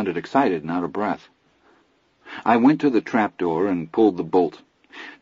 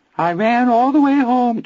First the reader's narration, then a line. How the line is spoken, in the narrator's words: Teddy wavered in a dreadful little Anthony falsetto